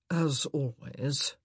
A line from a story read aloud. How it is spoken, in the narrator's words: he murmured